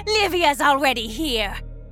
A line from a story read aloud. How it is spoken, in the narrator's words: Martha screeched, her voice like nails across a chalkboard